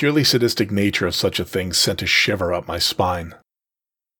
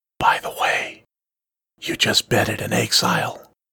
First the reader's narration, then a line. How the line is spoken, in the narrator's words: whisper gently